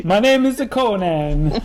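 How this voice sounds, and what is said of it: Bad put-on Italian accent. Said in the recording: “Do your Italian accent. ... Oh, that's terrible.”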